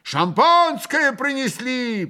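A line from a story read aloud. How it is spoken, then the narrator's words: Shout. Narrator (Russian): прокричал Ракитин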